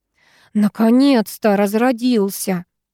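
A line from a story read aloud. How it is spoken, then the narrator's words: Grumbling. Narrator (Russian): проворчала Ира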